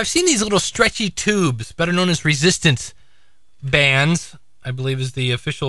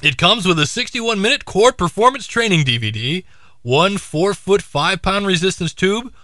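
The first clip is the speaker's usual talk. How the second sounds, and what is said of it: Announcer-style radio voice. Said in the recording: “let me get my radio voice.”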